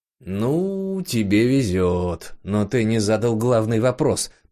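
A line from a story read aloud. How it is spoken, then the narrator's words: Grumbling. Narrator (Russian): проворчал Жора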